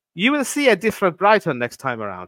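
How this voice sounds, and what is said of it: Attempted Italian accent, sounds French. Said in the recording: “I can't get the accent for the life of me. I mean, it sounds more French or, you know, Iberian than Italian”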